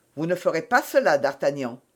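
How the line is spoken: Said coldly. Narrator (French): dit froidement Athos

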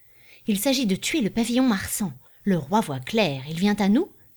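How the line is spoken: Exclaimed. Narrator (French): s'écria l'autre

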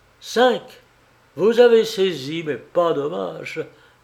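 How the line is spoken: Sneering laugh. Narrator (French): ricana Lupin

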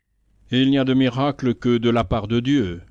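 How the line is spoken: Half-jovial, half-grumbling call from outside. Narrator (French): lança du dehors par la porte ouverte une voix semi-joviale, semi-bougonnante

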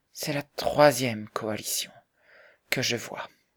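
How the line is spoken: Sighing. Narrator (French): dit Bessie en soupirant

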